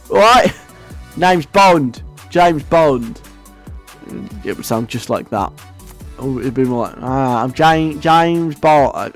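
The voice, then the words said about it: Put-on Essex accent. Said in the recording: “I'm going to stop trying to do an Essex accent now”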